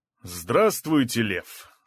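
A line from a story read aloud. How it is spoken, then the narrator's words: Loud. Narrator (Russian): сказал громко Краснощеков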